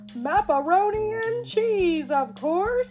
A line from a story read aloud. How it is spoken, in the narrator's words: exclaimed the pirate captain